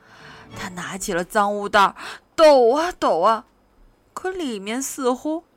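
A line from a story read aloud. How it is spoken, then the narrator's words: Sighing and groaning. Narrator (Chinese): 强强唉声叹气地说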